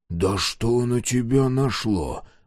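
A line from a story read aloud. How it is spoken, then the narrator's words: Whispering. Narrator (Russian): прошептал Мюррей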